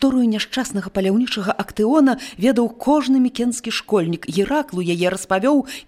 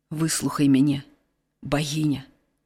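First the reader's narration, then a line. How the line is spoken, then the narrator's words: Quiet speech. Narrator (Belarusian): ціха загаварыў ён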